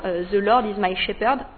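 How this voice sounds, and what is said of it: Very poor English accent. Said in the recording (French): “Définitivement mon accent est catastrophique”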